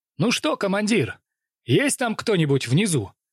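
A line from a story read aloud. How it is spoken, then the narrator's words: Cheerful. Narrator (Russian): Весело обратился он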